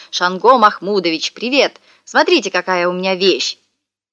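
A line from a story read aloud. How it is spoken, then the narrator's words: Loud shout. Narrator (Russian): я громко закричал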